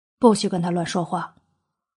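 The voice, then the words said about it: Quiet, hushed warning. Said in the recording (Chinese): “小声警告”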